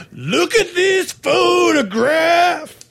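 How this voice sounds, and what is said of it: Loud guttural grunting singer impression. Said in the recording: “your guttural sounds ... it's grunting ... my impression ... Being too loud, apparently.”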